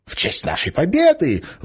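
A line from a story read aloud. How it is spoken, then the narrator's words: Shouted. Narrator (Russian): выкрикнул стукач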